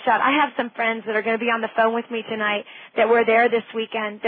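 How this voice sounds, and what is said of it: Tired, worn voice. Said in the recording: “excuse my voice and my energy level. I'm a bit tired”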